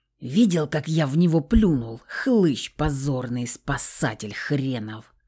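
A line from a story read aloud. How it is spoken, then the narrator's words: Angry growl. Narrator (Russian): Злобно прорычал самовар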